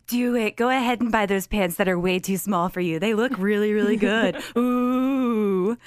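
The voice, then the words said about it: Spooky ghost character voice. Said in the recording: “my ghost impression”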